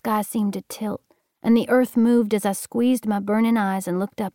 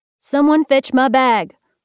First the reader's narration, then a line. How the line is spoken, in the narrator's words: Doc hollered